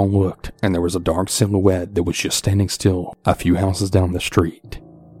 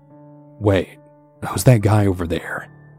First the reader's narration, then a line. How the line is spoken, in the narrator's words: Out of the blue, Elle nervously said